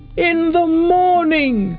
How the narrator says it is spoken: cried all the other beetles

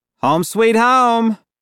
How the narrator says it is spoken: our driver called out

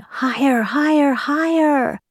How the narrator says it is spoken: the girl would let go the string and run after the boy, yelling

